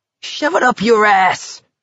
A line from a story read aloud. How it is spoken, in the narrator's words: Barkovich screamed after them